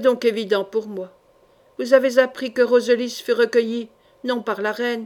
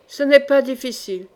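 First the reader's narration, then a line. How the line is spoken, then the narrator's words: Sorcerer speaking coldly. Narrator (French): dit froidement le sorcier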